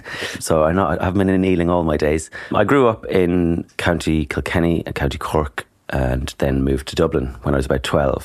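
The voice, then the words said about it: Irish accent. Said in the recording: “I'm Irish, if you haven't noticed from my accent.”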